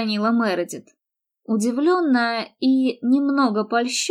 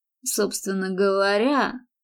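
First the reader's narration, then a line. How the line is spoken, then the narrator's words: Dry remark. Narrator (Russian): сухо заметил он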